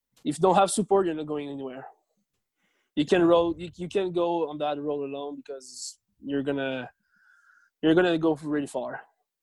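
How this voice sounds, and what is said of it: French-Canadian accent. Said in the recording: “my French-Canadian accent”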